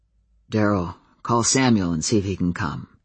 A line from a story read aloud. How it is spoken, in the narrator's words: Adam said quietly